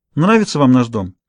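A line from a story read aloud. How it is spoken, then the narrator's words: Casual question. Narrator (Russian): спросила небрежным тоном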